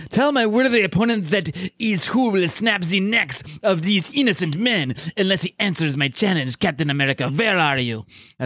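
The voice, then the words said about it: Put-on accent for villain character. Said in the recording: “I'm going to try to do the accent. ... That's my Batroc the Leaper.”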